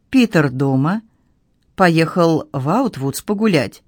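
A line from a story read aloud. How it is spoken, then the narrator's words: Low-voiced question. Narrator (Russian): он спросил низким голосом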